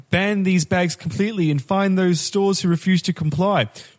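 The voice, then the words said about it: Put-on Kiwi accent. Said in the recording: “He's Kiwi... his accent... I've only got one Kiwi accent”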